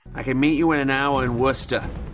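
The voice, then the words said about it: Exaggerated Boston accent. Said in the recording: “Boston Accent ... Do we really sound like that?”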